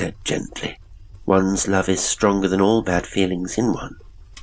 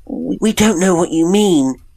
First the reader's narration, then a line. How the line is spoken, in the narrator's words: they cried